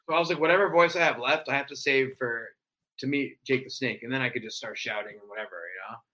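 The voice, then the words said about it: Raspy, worn-out voice. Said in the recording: “my voice is so gone ... it's so raspy by default now”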